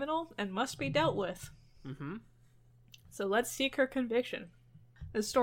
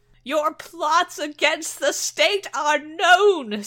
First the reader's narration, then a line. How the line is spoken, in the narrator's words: screams the queen